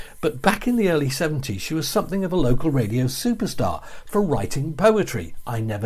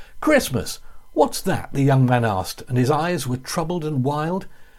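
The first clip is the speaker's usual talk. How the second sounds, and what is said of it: Slightly northern English accent, not very good. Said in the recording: “I might adopt a slightly northern accent, and if I do, it won't be very good”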